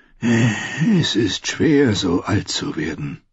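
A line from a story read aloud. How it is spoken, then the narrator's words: Sighed. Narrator (German): seufzte er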